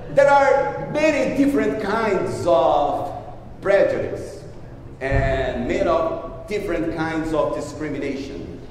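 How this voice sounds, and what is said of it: Strong foreign accent. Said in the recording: “I'm still the guy with a strong accent.”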